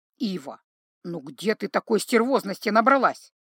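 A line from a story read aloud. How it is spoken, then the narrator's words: Grumbling. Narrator (Russian): ворчал Златко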